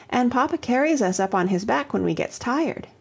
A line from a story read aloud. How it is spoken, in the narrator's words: piped Toddie